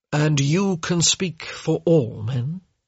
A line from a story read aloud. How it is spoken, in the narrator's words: he murmured